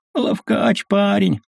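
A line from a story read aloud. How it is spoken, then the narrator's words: Moaning. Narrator (Russian): стонал заяц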